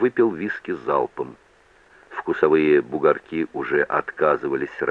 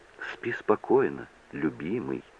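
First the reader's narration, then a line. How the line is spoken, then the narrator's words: Barely audible. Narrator (Russian): сказала она едва слышно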